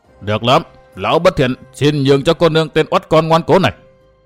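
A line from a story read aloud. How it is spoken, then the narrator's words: Sinister satisfied voice. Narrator (Vietnamese): Hỗn Thế Tà Thần gật gù tỏ vẻ hài lòng, lão nói bằng một giọng thâm độc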